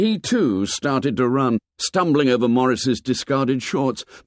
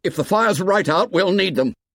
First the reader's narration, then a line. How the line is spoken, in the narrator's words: He stopped shouting